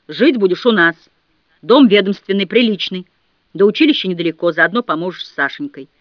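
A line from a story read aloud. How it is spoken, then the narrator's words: Stern military tone. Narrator (Russian): Дядя Степа, мамин брат, служивший в штабе погранвойск, по-военному строго сказал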